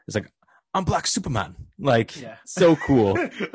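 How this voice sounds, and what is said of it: Impression of Idris Elba. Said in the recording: “That's a pretty good impersonation.”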